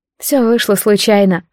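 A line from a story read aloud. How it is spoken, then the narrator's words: Sighing. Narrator (Russian): вздохнула я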